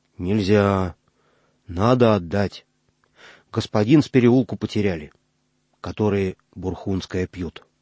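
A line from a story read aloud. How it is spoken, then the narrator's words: Solemn, meaningful. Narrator (Russian): значительно поджав губы, сказал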